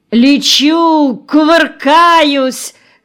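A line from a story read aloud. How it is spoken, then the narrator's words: Shouting. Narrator (Russian): кричал Горин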